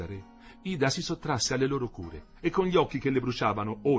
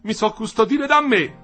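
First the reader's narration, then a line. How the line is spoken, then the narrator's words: Shouted. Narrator (Italian): gridò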